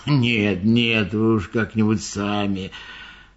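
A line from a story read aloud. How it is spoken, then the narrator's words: Gruff mumble. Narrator (Russian): Слон буркнул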